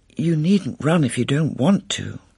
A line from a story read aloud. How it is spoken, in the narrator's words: Glenda said kindly